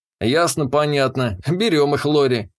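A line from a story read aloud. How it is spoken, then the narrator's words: Snorting. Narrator (Russian): хмыкнул я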